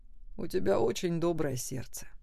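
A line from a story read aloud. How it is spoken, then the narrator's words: Tender, affectionate. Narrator (Russian): Саймон ласково сказал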